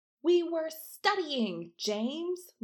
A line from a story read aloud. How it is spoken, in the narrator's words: Lily shouted